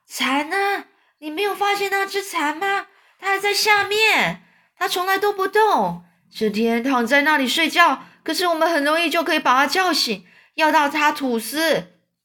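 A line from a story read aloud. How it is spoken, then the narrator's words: Old creature shouting. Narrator (Chinese): 绿色老蚱蜢就大叫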